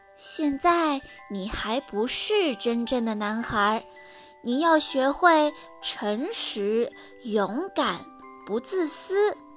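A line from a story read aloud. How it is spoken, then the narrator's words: Gentle. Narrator (Chinese): 蓝仙子温柔地对匹诺曹说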